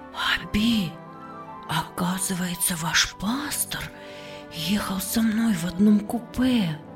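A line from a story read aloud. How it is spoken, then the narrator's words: Astonished whisper. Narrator (Russian): Эстер изумленно прошептала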